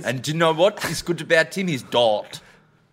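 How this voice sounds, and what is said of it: South African drifting into Australian accent. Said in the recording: “I don't understand your accent ... You've lost your South African. You're speaking too much like you're from Perth. ... I'm going Australian. I do sound Australian”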